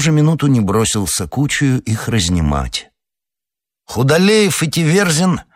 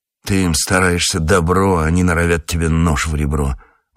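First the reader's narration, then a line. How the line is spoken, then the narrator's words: Grumbling. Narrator (Russian): ворчал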